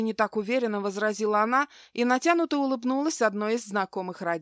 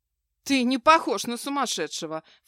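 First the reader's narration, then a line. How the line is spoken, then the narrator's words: Snorting. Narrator (Russian): фыркнула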